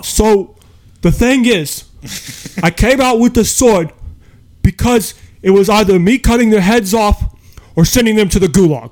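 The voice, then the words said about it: Old Jewish man accent impression. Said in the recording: “great impression. That is a great impression. ... that like Jewish like old man accent.”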